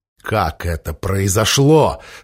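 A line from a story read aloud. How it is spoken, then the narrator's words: Through gritted teeth. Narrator (Russian): сквозь зубы спросил король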